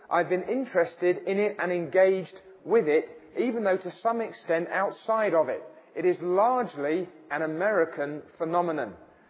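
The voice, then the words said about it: Non-American accent. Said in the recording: “as you'll tell by my accent, I'm from somewhere else”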